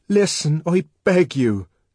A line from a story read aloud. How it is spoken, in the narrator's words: cried the savage earnestly